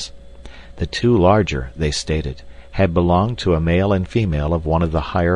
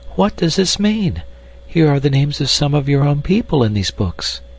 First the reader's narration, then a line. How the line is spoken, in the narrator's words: she cried